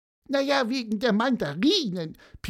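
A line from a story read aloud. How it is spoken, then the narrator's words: Squeaky voice. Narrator (German): piepste Pieper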